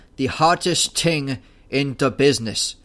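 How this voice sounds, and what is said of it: Put-on Irish brogue. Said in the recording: “my attempt at an Irish brogue”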